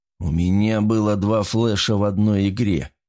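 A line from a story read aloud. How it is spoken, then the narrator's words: Grim hiss. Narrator (Russian): прошипел он мрачно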